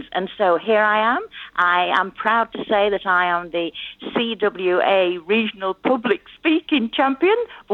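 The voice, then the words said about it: English accent. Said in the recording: “the accent there, you're obviously from England.”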